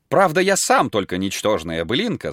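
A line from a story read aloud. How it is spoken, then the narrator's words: Plain. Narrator (Russian): сказал Берт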